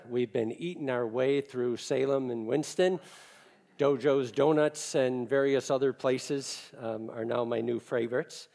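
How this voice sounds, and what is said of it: Chicago American accent. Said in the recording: “I'm originally from Chicago, you can probably tell by my accent”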